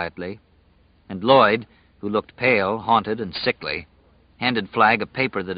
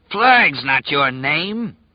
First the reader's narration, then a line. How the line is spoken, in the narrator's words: Ralph roared